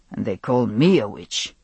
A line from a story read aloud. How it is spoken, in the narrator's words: he muttered, almost under his breath